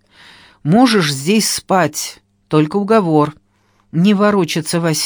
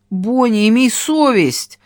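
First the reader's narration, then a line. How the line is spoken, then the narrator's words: Pleading. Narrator (Russian): взмолилась я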